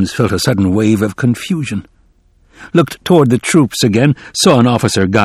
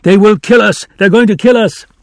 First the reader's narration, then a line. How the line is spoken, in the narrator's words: Another man ran past him, shouting